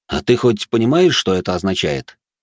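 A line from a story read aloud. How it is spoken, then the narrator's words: Snort. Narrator (Russian): хмыкнул я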